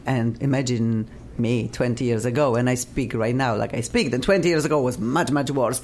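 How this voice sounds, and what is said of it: Non-native accented English. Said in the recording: “my English was funny and still is ... when I sing, my accent is less than when I speak”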